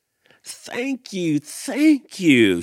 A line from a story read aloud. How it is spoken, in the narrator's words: chirped